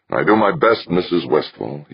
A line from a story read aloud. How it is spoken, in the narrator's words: he said